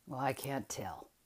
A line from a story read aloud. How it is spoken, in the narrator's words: he said roughly